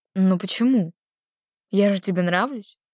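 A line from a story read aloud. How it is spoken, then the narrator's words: Hoarse question. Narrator (Russian): спросил Игнат хрипло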